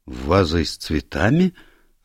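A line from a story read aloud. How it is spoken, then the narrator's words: Confused questioning. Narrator (Russian): растерянно переспросила Равена Дрейк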